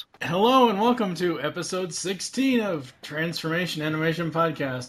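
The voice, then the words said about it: Announcer-style radio voice. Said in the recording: “Cue the radio voice.”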